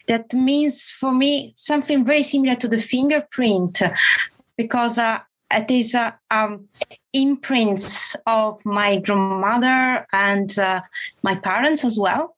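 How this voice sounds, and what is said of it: Italian accent mixed with other influences. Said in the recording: “accent I have is the Italian accent plus other accent coming from all the languages I was exposed to during my life”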